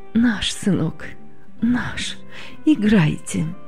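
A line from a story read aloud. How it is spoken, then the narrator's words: Trembling voice. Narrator (Russian): Дрогнувшим голосом ответила она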